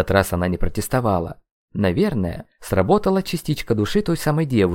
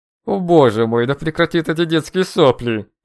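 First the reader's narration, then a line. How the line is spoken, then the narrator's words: Through gritted teeth. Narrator (Russian): Процедил сквозь зубы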